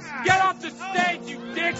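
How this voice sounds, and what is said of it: Yelling. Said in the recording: “Stop yelling”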